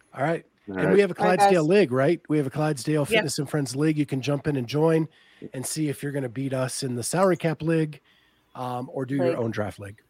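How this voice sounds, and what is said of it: Accent, says league oddly. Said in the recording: “You say league funny. ... Leg. ... that's your accent. You have like an accent.”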